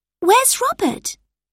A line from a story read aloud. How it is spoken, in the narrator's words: Lucy exclaimed